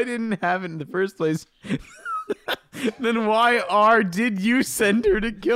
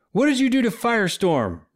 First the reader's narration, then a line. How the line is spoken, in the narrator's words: Raoul shouted